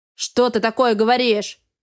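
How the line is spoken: Growl. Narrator (Russian): рыкнул Астел

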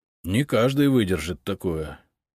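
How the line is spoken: Sighing. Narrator (Russian): вздохнул Андрей

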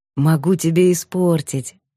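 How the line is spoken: Gentle offer. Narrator (Russian): ласково предложил Илюшин

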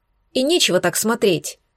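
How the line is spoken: Angry speech. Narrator (Russian): сердито проговорила

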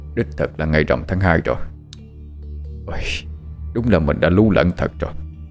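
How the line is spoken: Muttering. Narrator (Vietnamese): Viên Quan kẻ lẩm bẩm

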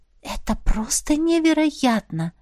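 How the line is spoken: Whisper. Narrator (Russian): прошептала я

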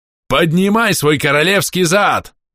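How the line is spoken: Angry yell. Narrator (Russian): заорал Бом

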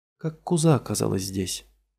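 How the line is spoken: Weary question. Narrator (Russian): устало спрашивает Молли

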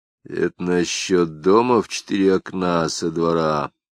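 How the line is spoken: Quiet question. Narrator (Russian): тихо спросил Лапшин

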